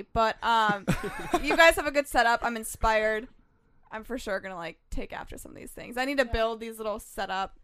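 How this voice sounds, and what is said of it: Stuffy, congested voice. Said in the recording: “this is probably why I sound so stuffy.”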